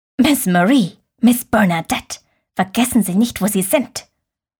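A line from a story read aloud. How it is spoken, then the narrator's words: Hissing from behind. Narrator (German): zischte es von hinten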